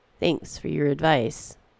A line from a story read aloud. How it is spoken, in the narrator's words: said the woman